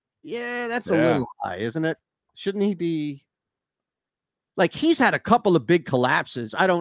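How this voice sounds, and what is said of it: Usual voice. Nothing is said of it.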